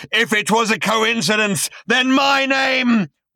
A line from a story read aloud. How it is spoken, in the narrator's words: roared the voice